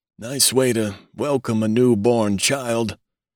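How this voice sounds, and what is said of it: Weak, whining old voice. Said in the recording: “he complained in a weak voice ... the querulous whine”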